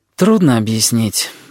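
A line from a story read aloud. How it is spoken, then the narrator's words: Sighing. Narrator (Russian): вздохнула ведьма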